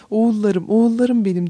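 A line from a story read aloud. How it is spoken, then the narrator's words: Sobbing. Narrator (Turkish): diyerek hıçkırıyordu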